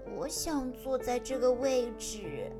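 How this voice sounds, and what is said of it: Quiet whispered voice. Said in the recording (Chinese): “在心里小声地对自己说”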